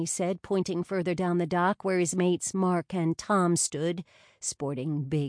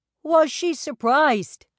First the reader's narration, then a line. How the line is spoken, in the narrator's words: Mark called out